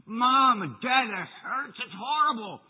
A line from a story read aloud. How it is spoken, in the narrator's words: the poor boy screamed and he shouted and he cried and said